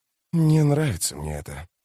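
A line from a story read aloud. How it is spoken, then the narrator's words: Muttering. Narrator (Russian): пробормотал он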